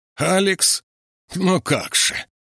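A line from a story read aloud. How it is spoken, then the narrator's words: Creaky, rough, accented, hard consonants. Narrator (Russian): Проскрипела она со староиварским акцентом, грубо и с твердыми согласными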